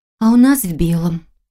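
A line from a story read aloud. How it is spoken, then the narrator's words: Wistful sigh. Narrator (Russian): вздохнула, вспомнив платье, которое шила к свадьбе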